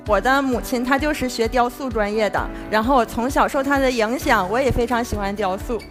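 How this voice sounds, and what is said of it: Familiar regional Chinese accent. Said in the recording (Chinese): “我说听这口音咋那么亲切呢？”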